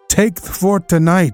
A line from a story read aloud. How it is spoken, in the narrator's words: said he, doggedly and sobbing